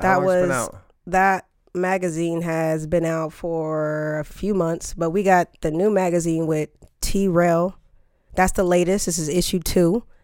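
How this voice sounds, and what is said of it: Voice slightly deeper than usual. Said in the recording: “Isn't your voice a little off right now? ... my voice is a little bit deeper. Sounds different.”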